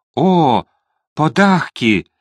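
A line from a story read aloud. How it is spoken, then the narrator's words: Delighted exclamation. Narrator (Russian): воскликнула она, с восторгом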